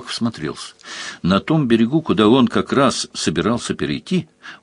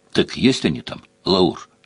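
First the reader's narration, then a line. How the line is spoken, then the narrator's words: Whisper. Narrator (Russian): шепнул агент третьего разряда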